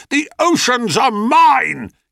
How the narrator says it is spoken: he roared

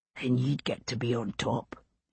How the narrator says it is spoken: he whispered back

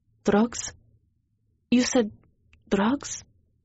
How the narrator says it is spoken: I whispered

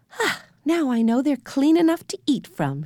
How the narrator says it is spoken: she said happily

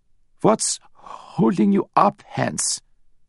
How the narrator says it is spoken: Giles asked with a slight stutter

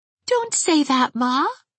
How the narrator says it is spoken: begged Pauline

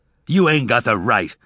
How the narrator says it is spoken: Tobias said angrily

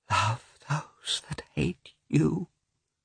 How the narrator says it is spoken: whispered Dolly, shamefacedly

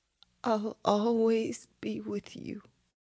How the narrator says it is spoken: she whispered in his ear

